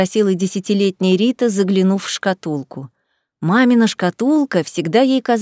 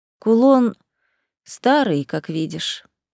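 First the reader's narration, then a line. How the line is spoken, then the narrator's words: Sad sighing mother. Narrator (Russian): вздохнула мама, и Рита уловила в ее голосе грусть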